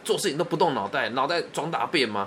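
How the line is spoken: Angry shouting. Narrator (Chinese): 我爸爸就很很生气，吼我说

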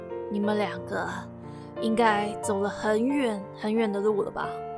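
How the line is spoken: Low voice, sighing. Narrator (Chinese): 黑斗篷就低声，叹了口气说

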